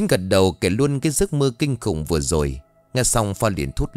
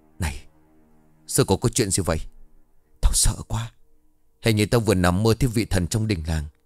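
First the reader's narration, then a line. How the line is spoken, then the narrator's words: Whisper. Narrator (Vietnamese): Phong mới ngồi xuống kế bên Chiến thì thầm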